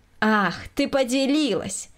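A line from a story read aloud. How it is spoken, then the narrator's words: Snide interruption. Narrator (Russian): Ехидно перебила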